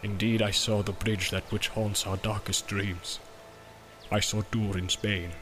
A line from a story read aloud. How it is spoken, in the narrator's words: said Gimli in a low voice, and dread was in his eyes